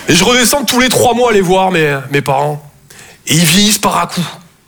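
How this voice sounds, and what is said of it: Mild Toulouse southern French accent. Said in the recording (French): “Je viens de Toulouse, à la base. Ouais, ça s'entend un peu, ouais.”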